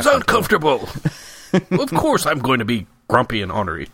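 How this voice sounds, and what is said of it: Imitates another person's voice. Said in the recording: “impression of Frank Gehry ... I forgot my Canadian accent.”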